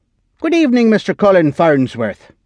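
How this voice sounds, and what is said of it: Vague Irish-sounding accent. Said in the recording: “He spoke in an accent that was reminiscent of Colin's Irish grandparents who had raised him, but regionally undefinable.”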